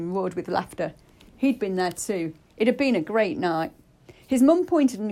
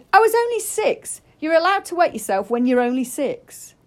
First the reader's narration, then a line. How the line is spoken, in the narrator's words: he yelled